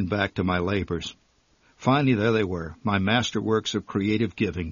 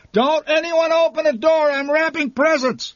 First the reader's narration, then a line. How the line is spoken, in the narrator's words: hollered